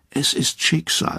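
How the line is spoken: Murmured. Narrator (German): murmelt einer

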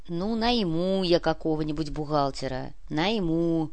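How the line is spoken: Grumble. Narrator (Russian): проворчал Артем

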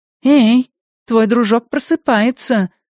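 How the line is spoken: Exclamation. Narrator (Russian): воскликнула Джули

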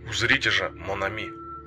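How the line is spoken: Hoarse dramatic whisper. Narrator (Russian): провозгласил он хриплым шепотом, более выразительным, чем вскрик

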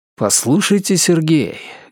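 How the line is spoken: Warm, heartfelt tone. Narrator (Russian): говорю я неожиданно задушевным тоном

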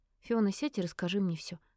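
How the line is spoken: Calm even voice. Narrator (Russian): сказала ровным голосом, чтобы успокоить девушку

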